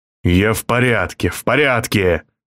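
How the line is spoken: Breathless exhale. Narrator (Russian): Инкалан выдохнул

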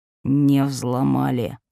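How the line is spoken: Cold correction. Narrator (Russian): холодно поправил Владислав

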